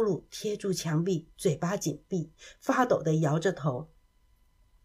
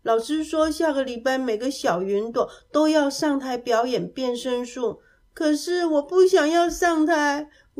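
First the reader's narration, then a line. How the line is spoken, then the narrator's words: Crying while speaking. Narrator (Chinese): 乌鲁边哭边说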